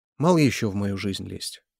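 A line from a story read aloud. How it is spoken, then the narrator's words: Sighing. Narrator (Russian): вздохнула она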